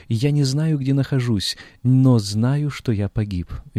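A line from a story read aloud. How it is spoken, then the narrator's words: Dying man screaming. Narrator (Russian): Карл IX, французский король, кровожадный тиран, перед смертью кричал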